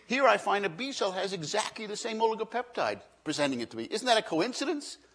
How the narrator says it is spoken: says excitedly

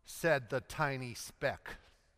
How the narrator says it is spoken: Calvin muttering to himself

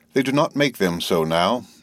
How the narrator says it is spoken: my tailoress tells me gravely

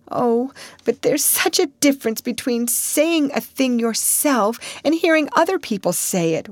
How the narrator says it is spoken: wailed Anne

